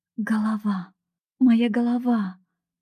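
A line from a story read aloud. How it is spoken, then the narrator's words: Moan. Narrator (Russian): простонала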